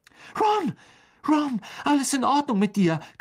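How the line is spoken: Shrieked. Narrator (German): kreischte Hermine

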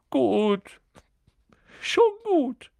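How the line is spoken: Sobbing. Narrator (German): hörte er Quirrell schluchzen

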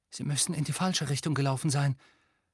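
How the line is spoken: Horrified whisper. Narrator (German): flüsterte Hermine mit entsetztem Gesicht

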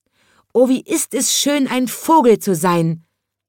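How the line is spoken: Child calling out. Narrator (German): rief der kleine Schornsteinfeger

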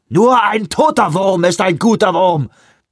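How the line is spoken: Thundering. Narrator (German): donnerte er

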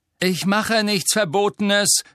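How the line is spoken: Called after. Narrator (German): rief Harry ihr nach

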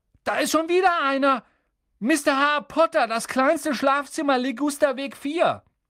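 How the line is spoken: Called out. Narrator (German): rief er

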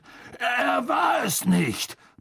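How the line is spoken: Boy's booming echoing voice. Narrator (German): polterte der Junge und seine Stimme hallte in den dunklen Gang wieder

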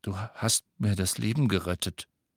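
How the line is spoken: Murmur. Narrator (German): murmelte er

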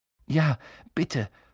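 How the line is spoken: Panted. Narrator (German): keuchte Harry

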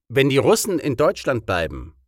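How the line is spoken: Plain. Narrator (German): sagte er

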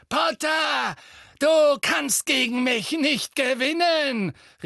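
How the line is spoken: Called out. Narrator (German): rief

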